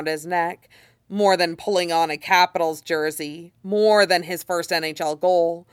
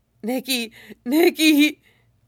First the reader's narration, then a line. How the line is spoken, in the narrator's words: he moans